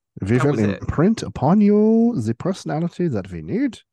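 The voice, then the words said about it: Put-on accent. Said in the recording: “I'm using the wrong accent, because I really ought to sound like ... Northeastern Yankee.”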